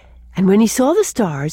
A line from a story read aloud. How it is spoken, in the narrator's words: he exclaimed